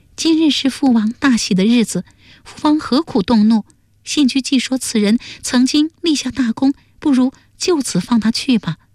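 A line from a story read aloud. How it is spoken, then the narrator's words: Gentle voice. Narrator (Chinese): 阿盖柔声说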